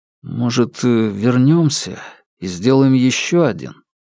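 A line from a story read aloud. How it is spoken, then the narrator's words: Hesitant question. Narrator (Russian): Фанму неуверенно спросил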